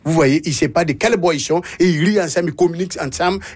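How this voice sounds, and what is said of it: Burkinabé accent. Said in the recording (French): “Burkinabé, je le précise, ouais. pour ceux qui n'avaient pas reconnu l'accent.”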